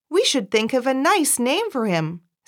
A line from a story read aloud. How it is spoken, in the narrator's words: said cheerfully